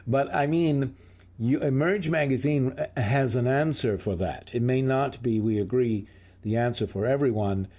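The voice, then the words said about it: Congested head-cold voice. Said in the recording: “when I have a head cold”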